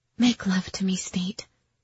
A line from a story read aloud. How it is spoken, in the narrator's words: I softly spoke